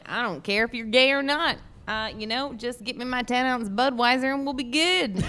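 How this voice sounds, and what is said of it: Put-on redneck good-old-boy voice. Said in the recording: “very liberal rednecks ... good old boys ... do that voice”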